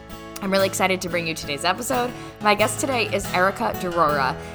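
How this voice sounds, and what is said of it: Hoarse voice. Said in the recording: “Don't mind my allergy voice. I'm a little hoarse today.”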